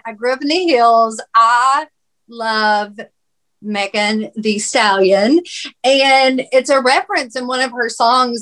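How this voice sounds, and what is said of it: Country accent. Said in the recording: “I've got this country accent.”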